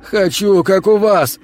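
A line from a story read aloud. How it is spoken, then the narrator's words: Shouting. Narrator (Russian): кричал Игорь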